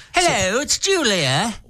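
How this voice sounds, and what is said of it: Julia Child impression, Cockney-sounding. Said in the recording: “Why is Julia from Cockney, England? ... your Julia Child impression?”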